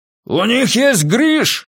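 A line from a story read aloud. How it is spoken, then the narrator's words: Shouting. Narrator (Russian): крикнул Доути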